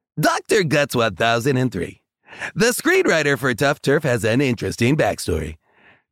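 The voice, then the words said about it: Poor Casey Kasem impression. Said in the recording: “I'm going to do it like Casey Kasem. ... This is a pointless impression. It's not a good impression.”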